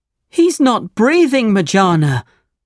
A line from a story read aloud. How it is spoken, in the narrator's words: cried Ali Baba